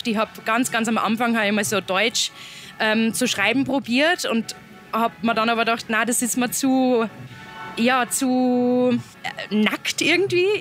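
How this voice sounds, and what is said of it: Speaks in regional German dialect. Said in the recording (German): “ich rede ja bei Interviews im Dialekt, ich rede immer im Dialekt”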